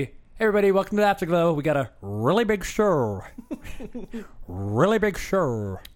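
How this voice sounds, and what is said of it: Impression of a late-night show host. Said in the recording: “this is how the show was supposed to start. It was supposed to be me doing my late night talk show... Your impersonations are all the same... I don't know who that is, but I know it's a voice”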